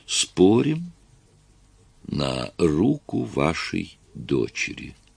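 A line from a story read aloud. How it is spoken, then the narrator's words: Slow, deliberate. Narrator (Russian): он медленно произнес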